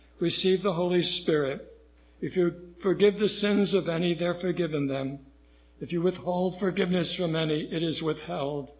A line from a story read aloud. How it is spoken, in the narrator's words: he breathed on them and said to them